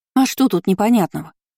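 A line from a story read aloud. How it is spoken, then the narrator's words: Snorting. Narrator (Russian): фыркнула Шарлотта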